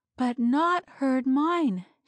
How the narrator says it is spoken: panted

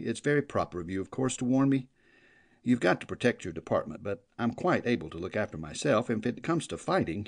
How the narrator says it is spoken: he chuckled

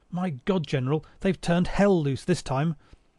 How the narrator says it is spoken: someone cried

